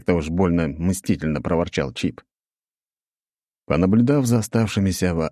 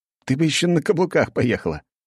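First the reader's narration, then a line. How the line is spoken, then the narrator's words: Laughing. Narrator (Russian): хохотнул я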